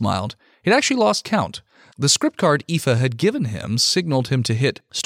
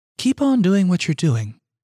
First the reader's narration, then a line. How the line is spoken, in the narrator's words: Aoife said